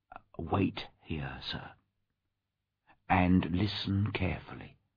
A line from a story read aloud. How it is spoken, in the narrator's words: whispered Poole